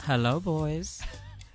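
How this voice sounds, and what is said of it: Quiet, low, seductive bedroom voice. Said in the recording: “That was so sexy. Whoa ... You literally genuinely quiet ... He literally has his bedroom voice on because he never talks like that”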